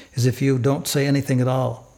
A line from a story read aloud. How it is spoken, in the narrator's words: I whispered